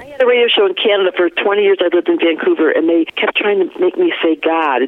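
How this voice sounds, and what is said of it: Flat Michigan accent. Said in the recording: “your A doesn't sound like Colorado ... I got that flat thing, that Michigan flat thing. I can't fix it ... I couldn't change my stupid accent”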